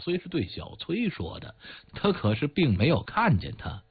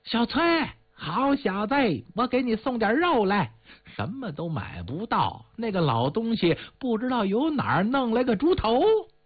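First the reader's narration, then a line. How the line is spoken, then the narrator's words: Warm shout. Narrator (Chinese): 他进屋就喊，声音比碗里的肉更热一点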